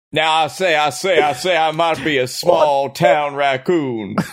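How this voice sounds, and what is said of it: Deep-voiced country raccoon character. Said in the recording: “You got a very deep voice, Mr. Raccoon.”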